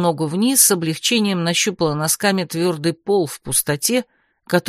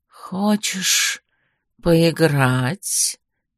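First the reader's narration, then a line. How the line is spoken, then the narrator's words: Soft, enveloping tone. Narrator (Russian): Мягким, почти обволакивающим тоном произнес он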